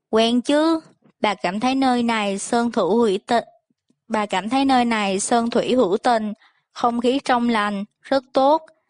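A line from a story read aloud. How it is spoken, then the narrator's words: Forced smiling speech. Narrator (Vietnamese): Bà cố mỉm cười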